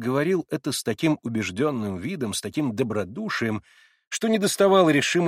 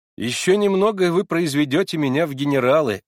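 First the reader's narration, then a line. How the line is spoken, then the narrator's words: Hearty laughing reply. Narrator (Russian): отвечал я, смеясь от души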